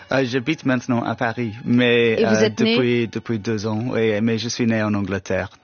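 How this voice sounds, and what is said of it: British accent speaking French. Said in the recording (French): “votre français excellent et votre accent so British ... je suis avec un accent un peu British”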